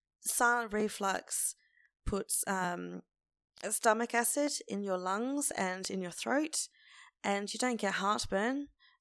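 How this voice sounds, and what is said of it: Voice sounds bad, strained. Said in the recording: “that is why my voice sounds bad”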